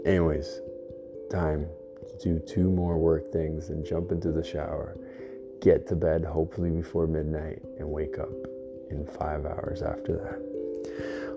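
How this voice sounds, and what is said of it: Hoarse, worn-out voice. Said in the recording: “My voice is still gone from this weekend's men's workshop.”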